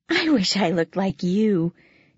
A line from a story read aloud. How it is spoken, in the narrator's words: she added with a sigh